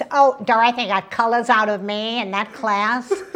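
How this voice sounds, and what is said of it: Impression of Fran Drescher. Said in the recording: “that's actually a pretty good impression.”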